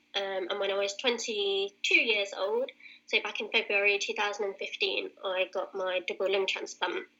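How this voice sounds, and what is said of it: British accent. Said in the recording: “As you can probably tell from my accent, I'm British.”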